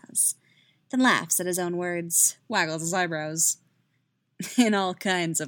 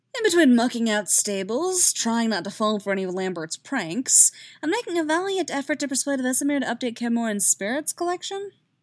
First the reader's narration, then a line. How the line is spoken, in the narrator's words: Yaskir sighs